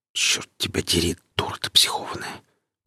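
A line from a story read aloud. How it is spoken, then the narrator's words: Whisper. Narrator (Russian): прошептал сталкер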